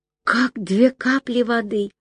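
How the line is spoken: Whispered. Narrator (Russian): прошептала я

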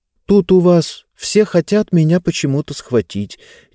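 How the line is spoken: Uncertain. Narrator (Russian): неуверенно сказала Занна

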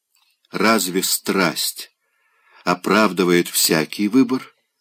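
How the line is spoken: Quiet woman. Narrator (Russian): тихо сказала она

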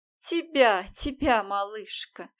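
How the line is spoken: Open laughter. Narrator (Russian): уже открыто смеялась женщина

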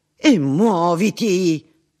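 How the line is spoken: Sudden outburst. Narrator (Italian): sbottò

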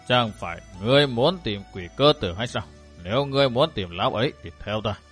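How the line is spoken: Old monk's soft deep voice. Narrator (Vietnamese): Vị lão tăng bằng một giọng nói êm trầm đáp

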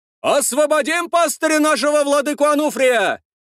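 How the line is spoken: Shouting from a crowd. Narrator (Russian): Прокричали в толпе

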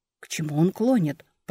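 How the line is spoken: Whisper. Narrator (Russian): прошептал Ральф

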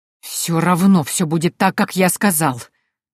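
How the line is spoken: Brother hissing. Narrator (Russian): прошипел брат

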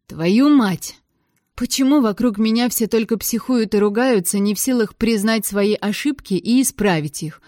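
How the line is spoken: Indignant, too loud. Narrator (Russian): возмутилась слишком громко

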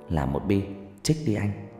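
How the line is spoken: Whispering. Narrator (Vietnamese): thì thào

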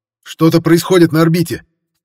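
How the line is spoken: Sharp shout. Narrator (Russian): резко выкрикнул оператор систем сканирования

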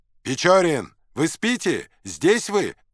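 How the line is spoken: Shouting. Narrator (Russian): кричал капитан

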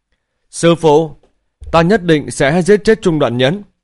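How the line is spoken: Loud cry. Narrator (Vietnamese): Thanh Phong lớn tiếng kêu lên

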